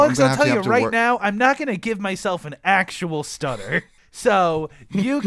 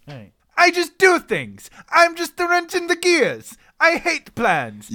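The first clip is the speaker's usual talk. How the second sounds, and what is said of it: Unconvincing put-on accent. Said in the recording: “just try an accent? ... Yeah, that's not working for me.”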